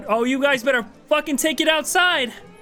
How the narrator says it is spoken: Your mother yells out

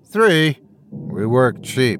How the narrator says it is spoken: I groaned

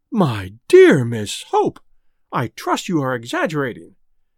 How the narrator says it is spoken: exclaimed the Quabaris in unison

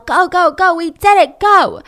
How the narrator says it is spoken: they yell

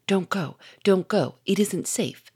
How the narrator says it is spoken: said Victor in a whisper

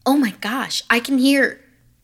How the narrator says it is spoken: heard Maisie exclaim

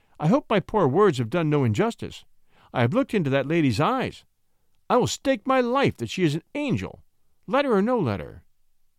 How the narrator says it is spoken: said David, earnestly

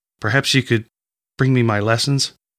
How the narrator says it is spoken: She said, but her voice cracked and she could not get the rest out

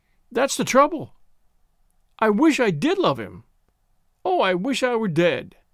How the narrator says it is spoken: She sobbed again, and from the midst of her sobs she cried

